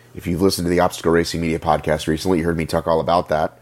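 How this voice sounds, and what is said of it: Sick-sounding voice. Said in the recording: “Do I sound sick? Do I sound ill? ... coming out of the flu”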